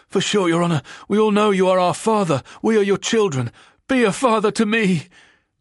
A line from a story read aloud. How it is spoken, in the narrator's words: cries the convict, beginning to hope